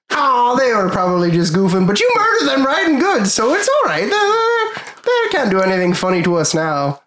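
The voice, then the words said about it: High character voice, slightly Irish. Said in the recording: “Not sure what accent I'm going for with Tin Toscano, by the way... It started off as just like high, and then it sort of slipped into like a little Irishy.”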